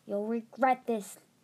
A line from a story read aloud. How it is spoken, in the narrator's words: Tsunami snarled